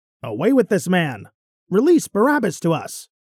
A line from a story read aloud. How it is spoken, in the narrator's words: they all cried out in unison